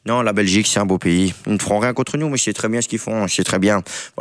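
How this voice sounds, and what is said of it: Rough imitation of another person's voice. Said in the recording (French): “Quelle imitation! ... les imitations approximatives ... C'est un mélange de Kylian et Deschamps.”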